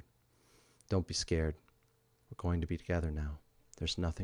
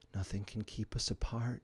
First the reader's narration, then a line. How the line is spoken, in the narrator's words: she whispered